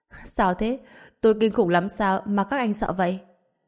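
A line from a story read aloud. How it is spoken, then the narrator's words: Laughing heartily. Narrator (Vietnamese): Lâm Tử Minh bật cười khanh khách, bảo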